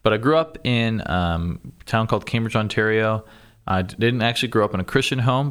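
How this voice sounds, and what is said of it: Slight Canadian accent. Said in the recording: “a little bit of a Canadian accent, but some Canadians would say that it's wavering. I'm losing it”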